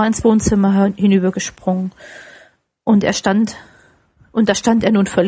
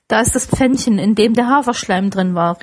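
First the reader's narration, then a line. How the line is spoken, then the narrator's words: Called out. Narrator (German): rief Scrooge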